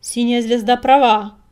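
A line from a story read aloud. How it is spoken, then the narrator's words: Loud bark. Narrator (Russian): рявкнул коготь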